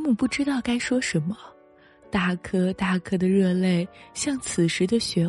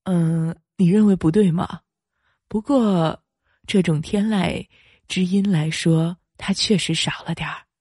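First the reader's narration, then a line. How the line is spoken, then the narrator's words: Middle-aged man, smiling. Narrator (Chinese): 中年男人笑着说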